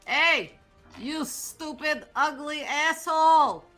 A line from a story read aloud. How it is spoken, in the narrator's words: she's going to yell